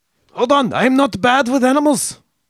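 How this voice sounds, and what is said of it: Poor, aggressive put-on German accent. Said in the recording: “That's not a good German accent. ... How do you do German accents? ... You just sound like Hitler, like you're doing a Hitler accent. ... So aggressive.”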